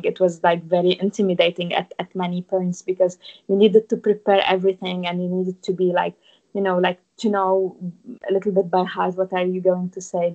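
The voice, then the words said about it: Non-native English accent. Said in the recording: “I still have this accent ... your accent is not completely the local accent”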